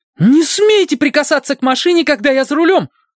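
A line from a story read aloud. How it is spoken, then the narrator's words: Yelling. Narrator (Russian): заорала Фрэн Челлайн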